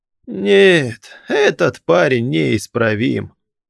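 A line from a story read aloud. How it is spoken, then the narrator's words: Old man laughing. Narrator (Russian): рассмеялся старик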